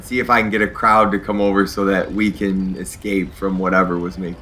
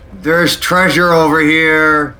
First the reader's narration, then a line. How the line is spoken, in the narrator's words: I'm going to yell out